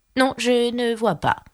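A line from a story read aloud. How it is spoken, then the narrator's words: Plain. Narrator (French): dit la chenille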